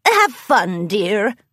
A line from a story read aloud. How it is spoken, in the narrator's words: replied the old mare with a nod and a chuckle